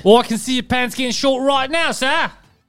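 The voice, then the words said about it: Poor put-on Australian accent. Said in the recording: “Why is your Australian accent like a chimney sweep?... I'm not good with accents.”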